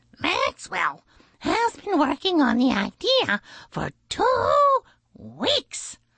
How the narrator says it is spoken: the blue jay chirped proudly

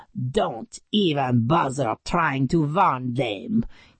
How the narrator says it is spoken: he sneered

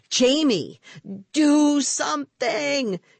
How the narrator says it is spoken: she shrieked

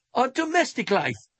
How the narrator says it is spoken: I cried

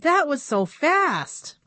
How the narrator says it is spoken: he exclaimed

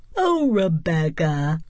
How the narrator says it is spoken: Mouse sighed

